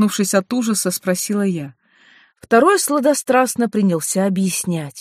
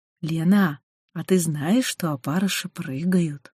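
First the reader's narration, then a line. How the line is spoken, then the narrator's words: Gentle, affectionate. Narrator (Russian): Один ласково сказал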